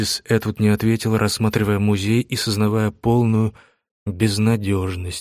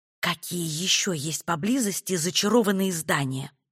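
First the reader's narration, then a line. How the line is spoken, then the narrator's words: Whispered question. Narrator (Russian): шепотом спросила Этти у Айрис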